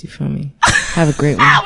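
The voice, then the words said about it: Put-on sexy voice. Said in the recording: “Signing off with a sexy voice.”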